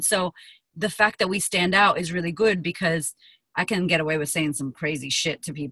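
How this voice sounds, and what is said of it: Puerto Rican accent rhythm. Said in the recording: “Your Puerto Rican accent still comes through. I could still hear the rhythm of it.”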